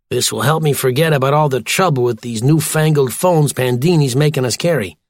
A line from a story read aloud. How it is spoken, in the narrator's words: grumbled O'Malley